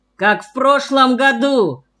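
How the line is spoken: Shouted out. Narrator (Russian): выкрикнул ловец Миша Ковылин

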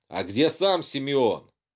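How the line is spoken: Woman shouting. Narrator (Russian): Впереди стоящая женщина крикнула

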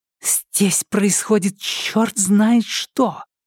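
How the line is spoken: Quiet furious whisper. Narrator (Russian): тихим яростным шепотом начала она

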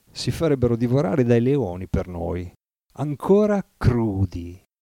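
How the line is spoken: Meditative tone. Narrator (Italian): Con tono meditabondo concluse

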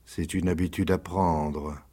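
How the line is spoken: Murmured. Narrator (French): murmura Rocambole

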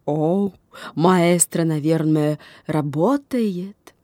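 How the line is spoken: Groaning. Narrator (Russian): застонал француз

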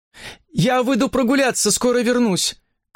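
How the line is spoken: Shouted from the doorway. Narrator (Russian): крикнула она уже с порога

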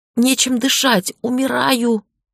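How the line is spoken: Strained gasping between fits. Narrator (Russian): выдавила я между приступами

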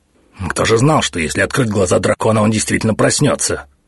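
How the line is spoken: High priest snapping, displeased. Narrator (Russian): недовольно огрызнулся первосвященник

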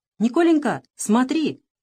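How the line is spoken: Sudden shout. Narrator (Russian): вдруг закричал Иван

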